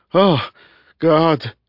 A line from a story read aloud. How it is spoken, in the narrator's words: he moaned, making it a litany, a familiar one